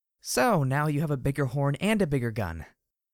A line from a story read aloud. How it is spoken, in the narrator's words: grunted softly